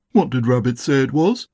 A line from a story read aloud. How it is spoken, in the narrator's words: asked